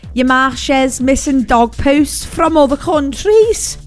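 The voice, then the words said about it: Put-on Scouse accent. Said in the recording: “Scouse graffiti ... I'm so sorry for the accent. I've just offended everyone. Liverpool's just turned off this radio station.”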